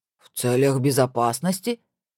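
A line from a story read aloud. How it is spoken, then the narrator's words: Woman's mock deep imitation. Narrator (Russian): пробасила тетушка, в попытке изобразить голос и интонацию принца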